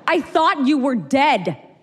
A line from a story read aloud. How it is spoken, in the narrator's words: he screamed